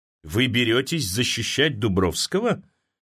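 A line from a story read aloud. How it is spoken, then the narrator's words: Skeptical hmph. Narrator (Russian): Великий князь хмыкнул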